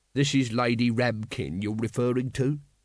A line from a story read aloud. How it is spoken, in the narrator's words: said Vimes coldly